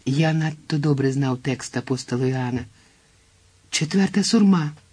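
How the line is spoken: Exclaiming. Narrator (Ukrainian): вигукнув я

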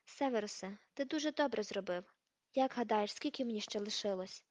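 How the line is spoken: Casual everyday tone. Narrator (Ukrainian): Дамблдор спитав це буденним тоном, ніби цікавився прогнозом погоди

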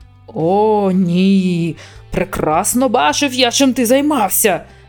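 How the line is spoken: Growl. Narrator (Ukrainian): Загарчав Шадвел

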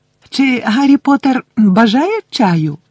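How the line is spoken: Loud squeak over sobbing. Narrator (Ukrainian): запищав він голосно, щоб перекричати рюмсання Вінкі

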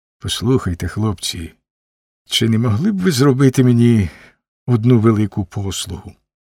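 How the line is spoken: Uncertain voice. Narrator (Ukrainian): почав він непевним голосом

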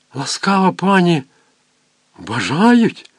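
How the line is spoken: Whispered. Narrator (Ukrainian): прошепотіла

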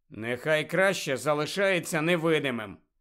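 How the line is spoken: Disapproving grumble. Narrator (Ukrainian): несхвально буркнув Гаррі

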